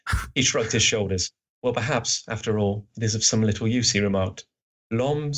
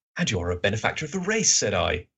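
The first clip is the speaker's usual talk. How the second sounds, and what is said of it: Watson character voice. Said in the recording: “That's Watson. That's my Watson voice.”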